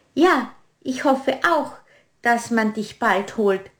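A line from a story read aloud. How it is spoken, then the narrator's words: Plain. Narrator (German): sagte die Heckenrose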